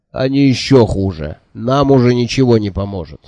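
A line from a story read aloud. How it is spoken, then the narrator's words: Stern speech. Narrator (Russian): строго сказал Джуфин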